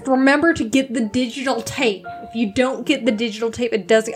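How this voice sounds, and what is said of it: Exaggerated Southern US accent. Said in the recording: “I'm doing like a really hard Southern accent”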